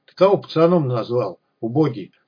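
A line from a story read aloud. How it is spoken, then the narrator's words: Calm question. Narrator (Russian): спросил Виталик спокойно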